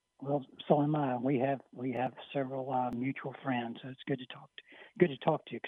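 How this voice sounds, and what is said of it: Hoarse voice. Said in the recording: “Excuse my voice; I'm kind of hoarse today.”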